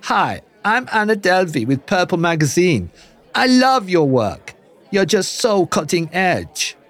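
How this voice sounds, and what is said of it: Poor put-on German-American accent. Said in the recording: “a very, very poor German-American accent”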